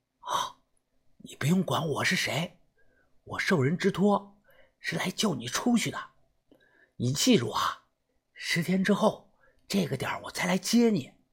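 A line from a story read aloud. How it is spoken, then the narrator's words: Hushed voice. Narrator (Chinese): 我压低了声音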